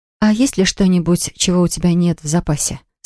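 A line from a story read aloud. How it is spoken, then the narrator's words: Plain. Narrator (Russian): спросила Поля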